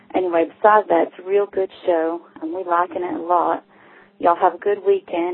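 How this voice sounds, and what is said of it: Southern American accent. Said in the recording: “the prettiest accent in America”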